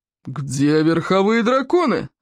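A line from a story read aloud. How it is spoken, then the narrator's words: Irritated roar. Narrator (Russian): раздраженно взревел Плевак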